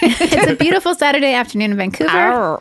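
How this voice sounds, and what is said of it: Talking-to-a-dog voice. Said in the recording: “You just switched into dog dialect.”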